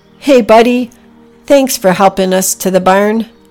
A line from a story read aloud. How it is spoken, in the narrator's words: Packy shouted down to Buddy